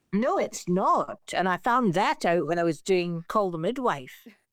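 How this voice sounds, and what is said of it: Put-on Scottish accent. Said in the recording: “completely unprompted, did the whole interview in a Scottish accent.”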